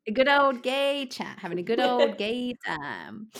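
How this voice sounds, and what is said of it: Odd put-on accent. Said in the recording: “I don't know what that accent was or what I was trying to do there”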